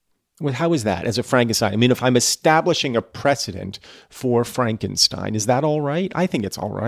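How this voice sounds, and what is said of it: Usual voice. Nothing is said of it.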